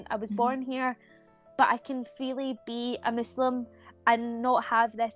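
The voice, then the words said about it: Scottish accent. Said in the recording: “speak Scottish, got a British accent”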